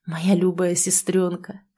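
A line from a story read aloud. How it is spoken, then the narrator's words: Whisper. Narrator (Russian): прошептал он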